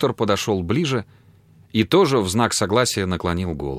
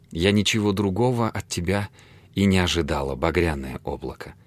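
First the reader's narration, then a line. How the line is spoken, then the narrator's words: Grateful whisper. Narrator (Russian): прошептала благодарно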